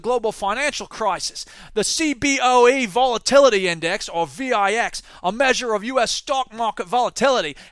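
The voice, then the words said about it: Put-on Australian accent, not very good. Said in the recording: “I didn't give up on that Australian accent. I probably should have, because I'm sure it's not very good”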